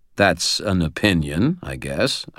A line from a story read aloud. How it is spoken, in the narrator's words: I said